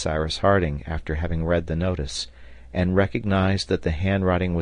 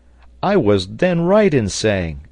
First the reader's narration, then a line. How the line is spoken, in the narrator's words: exclaimed the sailor